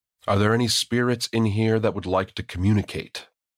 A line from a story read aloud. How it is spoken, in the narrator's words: asked loudly